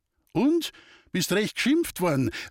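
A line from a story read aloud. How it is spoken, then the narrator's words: Called out. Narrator (German): rief entgegen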